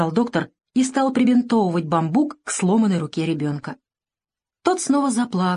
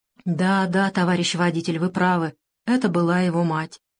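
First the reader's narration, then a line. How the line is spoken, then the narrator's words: Quiet, heavy sigh. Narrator (Russian): тихо заметил профессор и тяжело вздохнул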